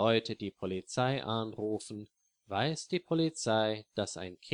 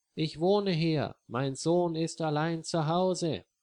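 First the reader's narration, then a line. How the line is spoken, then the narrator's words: Loud call. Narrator (German): ruft sie laut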